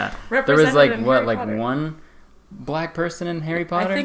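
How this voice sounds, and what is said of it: Usual voice. Nothing is said of it.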